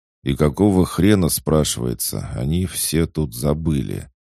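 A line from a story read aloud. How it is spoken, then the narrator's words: Drawling. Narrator (Russian): протянул Бадабум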